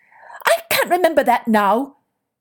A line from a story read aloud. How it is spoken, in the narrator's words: she snapped